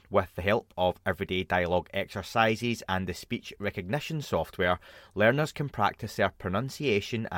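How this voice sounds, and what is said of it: Dodgy non-native English accent. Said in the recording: “I should really learn English given my dodgy accent.”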